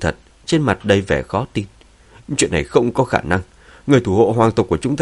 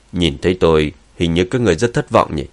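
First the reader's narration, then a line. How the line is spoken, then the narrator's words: Cold. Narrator (Vietnamese): Dương Chấn lạnh lùng nói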